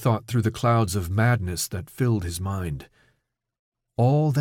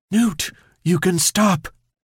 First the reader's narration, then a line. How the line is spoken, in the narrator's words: Keisha was screaming in his ear, even though it sounded like a whisper